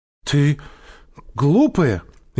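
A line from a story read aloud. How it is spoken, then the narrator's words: Frightened shout. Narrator (Russian): испуганно закричала Женя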